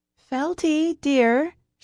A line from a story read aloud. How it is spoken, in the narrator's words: she called, hoping her voice carried up the stairs, through the cellar door, and into the kitchen